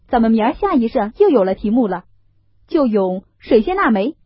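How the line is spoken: Laughing. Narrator (Chinese): 宝玉笑道

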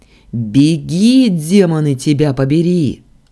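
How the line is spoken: Yelling. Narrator (Russian): заорал я

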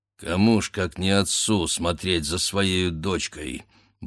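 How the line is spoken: Muttering to himself. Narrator (Russian): бормотал он про себя

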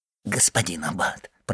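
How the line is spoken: Whisper. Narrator (Russian): прошептал Кадрус

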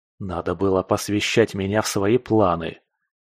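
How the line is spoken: Grumbling. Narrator (Russian): заворчал я

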